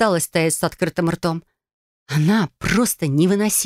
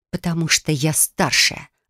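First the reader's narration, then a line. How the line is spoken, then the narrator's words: Growled. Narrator (Russian): рыкнула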